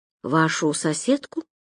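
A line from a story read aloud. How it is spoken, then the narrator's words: Quiet. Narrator (Russian): тихо уточнил Роман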